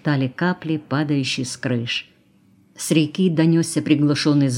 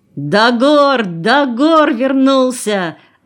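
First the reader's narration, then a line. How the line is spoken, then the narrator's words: Yelling. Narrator (Russian): заорал он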